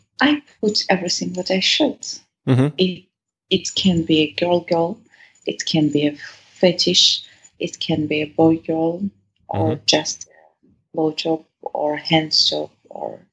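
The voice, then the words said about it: Speaks with a noticeable accent. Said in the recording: “in that accent of yours, somehow it just sounds cooler”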